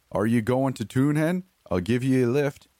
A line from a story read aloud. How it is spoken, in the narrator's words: the driver called out